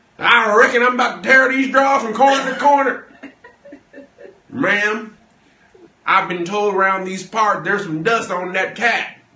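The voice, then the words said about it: Exaggerated put-on cowboy accent. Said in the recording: “use the full accent ... we don't need a full-on”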